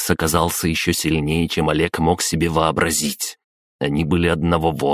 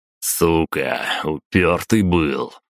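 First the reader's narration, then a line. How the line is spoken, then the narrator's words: Exhaled. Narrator (Russian): выдохнул Макс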